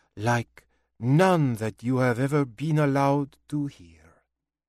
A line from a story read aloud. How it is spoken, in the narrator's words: she said softly, shifting effortlessly into French